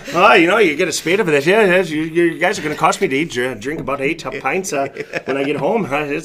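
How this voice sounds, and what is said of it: Put-on Irish accent. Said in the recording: “that little bit of an Irish accent ... Turned into Lucky Charms right? All of a sudden.”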